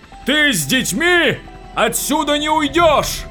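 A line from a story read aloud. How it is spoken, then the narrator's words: Fanatic's scream over din. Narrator (Russian): Завопил фанатик, перекрывая грохот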